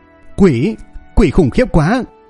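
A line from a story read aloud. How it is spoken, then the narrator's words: Terrified trembling scream. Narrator (Vietnamese): Tên quỷ sắc đột nhiên sợ hãi, toàn thân run rẩy, miệng hét lên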